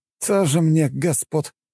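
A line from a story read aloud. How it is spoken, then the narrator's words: Scoffing snort. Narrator (Russian): фыркнул фермер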